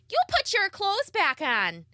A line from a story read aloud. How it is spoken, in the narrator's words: She yelled